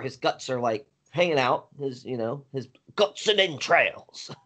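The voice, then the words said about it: Attempted British accent. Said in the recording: “You like my attempt for a British accent there?”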